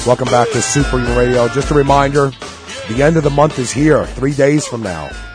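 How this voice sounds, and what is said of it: Deep, sick-sounding voice. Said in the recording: “I apologize for my voice ... I wish you were feeling better ... is my sexy voice ... it'll never be deeper than Wade's ... not being sick”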